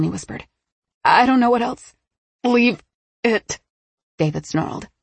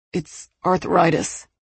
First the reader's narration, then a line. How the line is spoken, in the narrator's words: he muttered, looking cornered